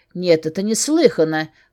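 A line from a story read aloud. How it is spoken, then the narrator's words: Indignant snort, scolding. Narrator (Russian): фыркнула, продолжая ругаться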